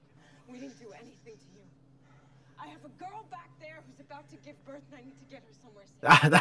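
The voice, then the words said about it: Put-on New York accent. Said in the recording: “I don't know why I'm using a New York accent”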